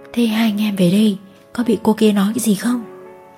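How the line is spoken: Hesitant. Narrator (Vietnamese): Nam ngập ngừng

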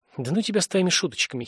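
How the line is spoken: Giggling through tears. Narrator (Russian): хихикнула Дженни, быстро утирая слезы

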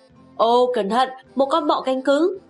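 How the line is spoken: Exclaiming. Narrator (Vietnamese): Pippi kêu lên

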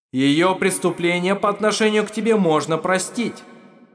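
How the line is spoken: Shouted. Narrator (Russian): крикнул голос

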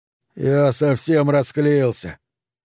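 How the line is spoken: Mumbled. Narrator (Russian): пробормотал он

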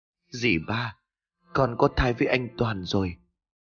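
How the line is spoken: Trembling, near tears. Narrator (Vietnamese): cất giọng run rẩy như sắp khóc

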